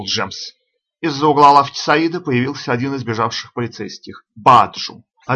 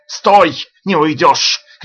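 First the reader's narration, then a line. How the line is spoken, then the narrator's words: Shouting. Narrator (Russian): кричал он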